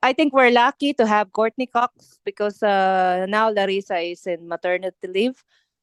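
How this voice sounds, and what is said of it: Filipino-accented English. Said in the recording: “sorry for my, my my accent because I'm I'm I'm from Philippines”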